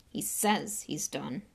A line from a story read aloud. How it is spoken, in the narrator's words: Ron muttered